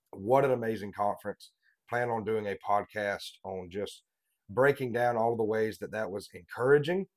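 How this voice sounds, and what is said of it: Sick-sounding, under-the-weather voice. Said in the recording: “apologize for my voice. ... I'm feeling a little bit under the weather right now”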